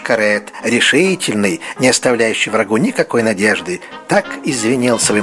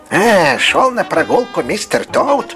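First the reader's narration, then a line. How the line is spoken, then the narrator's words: Yelling. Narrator (Russian): вопил он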